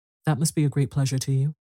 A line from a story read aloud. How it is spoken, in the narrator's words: Arbuthnot kindly